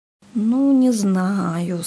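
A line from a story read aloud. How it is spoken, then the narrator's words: Doubtful drawl. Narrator (Russian): с сомнением протянул Сережа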